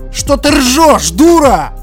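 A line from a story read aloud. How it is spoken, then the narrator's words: Surprised angry yell. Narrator (Russian): Заорал Тупой, явно не ожидая приколов в свою сторону от жертвы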